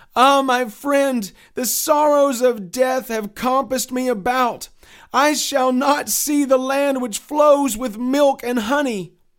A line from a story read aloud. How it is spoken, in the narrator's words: Christian then cried out